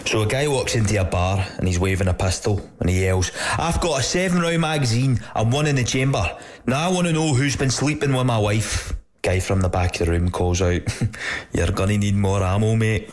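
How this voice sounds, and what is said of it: Put-on Scottish accent. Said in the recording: “I'll put on an accent just for dramatic effect ... I'm pretty sure there was a Scottish accent ... an Irish guy putting on a Scottish accent”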